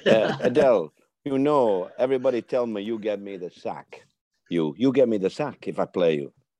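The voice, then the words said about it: Moroccan accent. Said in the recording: “I talk like that, you know, my Moroccan accent.”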